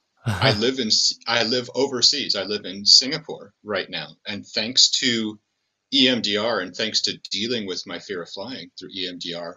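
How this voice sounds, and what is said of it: American accent. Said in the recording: “as you can tell from my accent, I'm an American”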